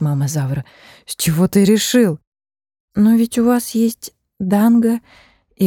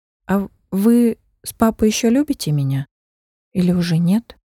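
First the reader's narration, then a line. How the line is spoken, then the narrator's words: Soft, quiet. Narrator (Russian): тихонько сказал Динго мама Заври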